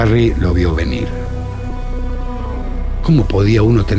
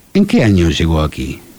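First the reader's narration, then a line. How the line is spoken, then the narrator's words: Kind question. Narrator (Spanish): preguntó Archer con tono amable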